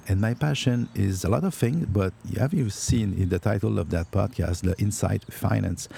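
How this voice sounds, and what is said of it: French-accented English. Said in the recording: “She tells me that I have a cute accent ... it's not a cute accent. It's an accent”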